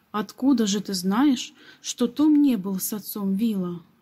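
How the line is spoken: Plain. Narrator (Russian): спросил джентльмен

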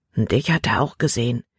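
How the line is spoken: Low warning voice. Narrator (German): warnte Caleb mit leiser Stimme

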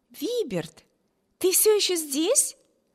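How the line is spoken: Exclaiming. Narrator (Russian): воскликнула сестра

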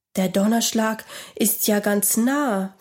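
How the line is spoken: Fearful whisper. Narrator (German): flüsterte Robert ängstlich

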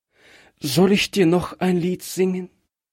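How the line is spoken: Trembling voice. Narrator (German): fragte es mit bebender Stimme

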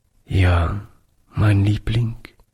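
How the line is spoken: Broken voice. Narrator (German): antwortete Oliver mit gebrochener Stimme

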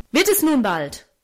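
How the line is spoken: Angry call. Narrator (German): rief er zornig

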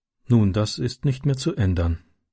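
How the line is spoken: Sad. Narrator (German): sagte sie traurig

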